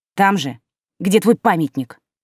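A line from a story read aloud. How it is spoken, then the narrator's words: Angry snap. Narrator (Russian): огрызнулась я, чувствуя, что злость вскипает с новой силой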